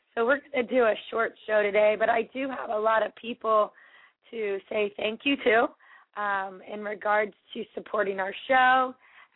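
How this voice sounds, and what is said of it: Hoarse, strained voice. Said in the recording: “I have lost my voice.”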